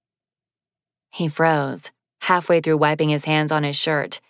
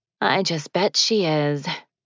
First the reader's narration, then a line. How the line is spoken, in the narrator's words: she mumbled